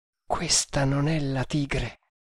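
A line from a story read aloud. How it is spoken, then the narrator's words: Murmured. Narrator (Italian): mormorò Kammamuri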